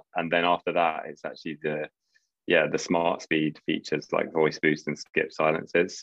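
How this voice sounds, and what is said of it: British accent. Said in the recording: “anyone can tell from your accent that you're from the UK”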